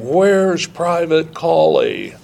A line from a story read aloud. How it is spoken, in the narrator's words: my company commander out in the hall screaming